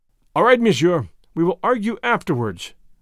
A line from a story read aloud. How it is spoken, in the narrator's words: answered